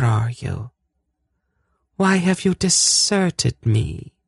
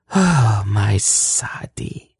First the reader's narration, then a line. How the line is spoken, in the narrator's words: she sighed half to herself